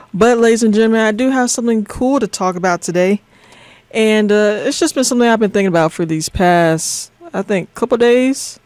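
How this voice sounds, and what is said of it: Tired, low-energy voice. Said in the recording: “I am a little tired, y'all. I don't know if you can hear it in my voice, but my energy is a little down right now.”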